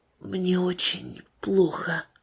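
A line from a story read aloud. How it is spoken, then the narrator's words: Quiet, weak. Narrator (Russian): Нестеров уже не мог самостоятельно подняться, только тихо сказал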